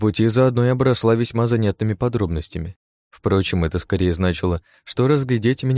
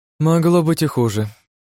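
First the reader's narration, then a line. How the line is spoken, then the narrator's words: Sighing. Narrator (Russian): вздохнула Гижицкая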